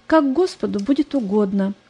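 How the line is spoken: Calm. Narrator (Russian): Она спокойно сказала

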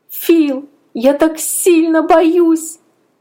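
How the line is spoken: Sudden sobbing. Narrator (Russian): Вдруг зарыдала я

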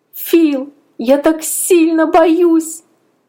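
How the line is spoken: Sudden sobbing. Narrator (Russian): Вдруг зарыдала я

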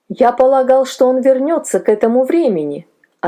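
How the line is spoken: Plain. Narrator (Russian): ответил я

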